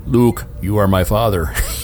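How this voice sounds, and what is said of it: Darth Vader voice impression. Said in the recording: “It was a great impression.”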